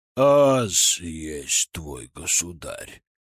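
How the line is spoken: Deep bass voice. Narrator (Russian): пробасил патриарх

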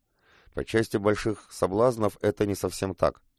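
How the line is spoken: Scoffing snort. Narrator (Russian): Коба хмыкнул

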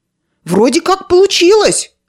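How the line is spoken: Joyful boy. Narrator (Russian): радостно проговорил мальчик

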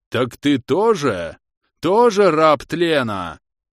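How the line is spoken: Wolf howling. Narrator (Russian): взвыл волк

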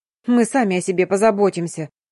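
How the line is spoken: Grumbling. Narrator (Russian): проворчала Дарина

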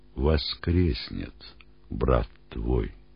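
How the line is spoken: Plain. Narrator (Russian): сказал Иисус

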